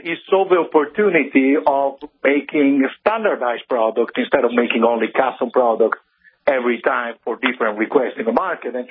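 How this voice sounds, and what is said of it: Italian accent. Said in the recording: “my crazy accent came from ... over in Italy ... the northern side of Italy”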